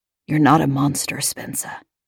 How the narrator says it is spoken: he whispered

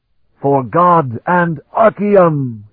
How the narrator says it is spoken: roared his defiance

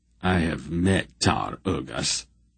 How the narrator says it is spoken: Silk said grimly

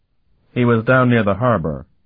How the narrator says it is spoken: the novice reported

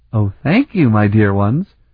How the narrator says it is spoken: said sweetly

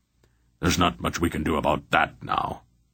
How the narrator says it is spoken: Belgarath grunted

